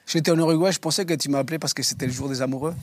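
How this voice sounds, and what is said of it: Uruguayan accent speaking French. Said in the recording (French): “Des Uruguayens, le plus bel accent”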